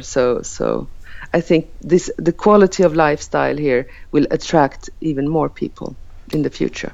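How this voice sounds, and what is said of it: Speaker's own accent. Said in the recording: “I think I like your accent”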